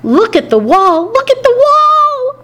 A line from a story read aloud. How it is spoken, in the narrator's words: I squeaked, but the words only sounded like hamster peeps